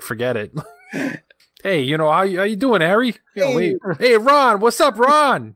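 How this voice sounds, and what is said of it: Exaggerated Rhode Island accent. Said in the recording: “use my Rhode Island accent ... if I had the Rhode Island accent”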